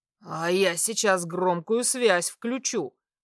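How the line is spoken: Muttering. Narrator (Russian): пробормотал тип

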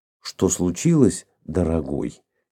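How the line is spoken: Quiet question. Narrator (Russian): тихо спросила

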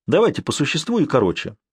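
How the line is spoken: Plain. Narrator (Russian): сказал Сварог

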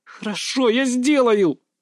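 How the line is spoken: Angry growl. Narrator (Russian): зло рыкнула она

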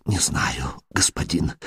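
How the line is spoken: Whispered answer. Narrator (Russian): шепотом отвечает менеджер косарей Дамаска

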